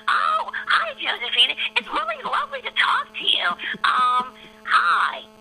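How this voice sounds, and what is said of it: Marge Simpson impression. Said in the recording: “I do lots of impressions ... I'll give you Marge Simpson ... I can do that character ... I can do Marge”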